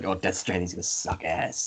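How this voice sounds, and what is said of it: Slight Boston accent impression. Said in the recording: “talks with a slightly Boston accent ... He's the scout from TF2 now.”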